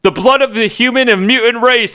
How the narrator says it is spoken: Apocalypse shouted

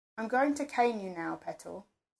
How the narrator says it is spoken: Sir said in a conversational tone

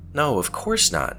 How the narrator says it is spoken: she said indignantly

